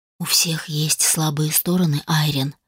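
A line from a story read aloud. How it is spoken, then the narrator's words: Quiet. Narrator (Russian): тихо произнес он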